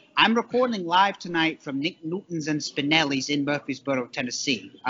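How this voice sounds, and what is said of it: Non-local accent. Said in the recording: “as you can tell by my accent, I'm not from Murfreesboro”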